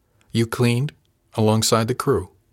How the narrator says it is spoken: His voice was flat

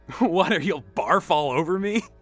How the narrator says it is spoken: Danny giggled

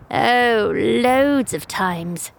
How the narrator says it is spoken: she drawls with a smirk

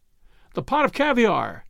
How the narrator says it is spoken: cried Ainsley

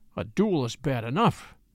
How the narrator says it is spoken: he muttered

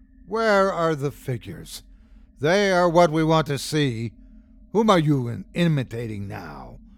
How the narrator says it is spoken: the aged man laughed coldly

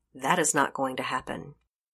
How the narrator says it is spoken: Officer Melanson said curtly

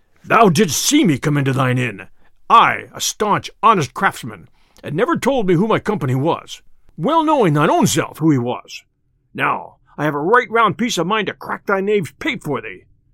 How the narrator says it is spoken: cried the tinker hastily, and in a deep voice like an angry bull

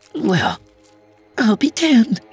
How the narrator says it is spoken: she chirped

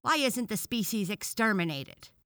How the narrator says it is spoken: asked another frog angrily

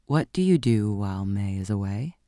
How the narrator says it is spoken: said, after a pause

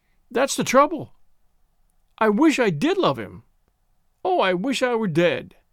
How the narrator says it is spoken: She sobbed again, and from the midst of her sobs she cried

